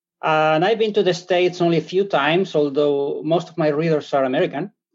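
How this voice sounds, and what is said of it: Spanish-accented English. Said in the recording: “I'm originally from Spain ... I speak English with European accent.”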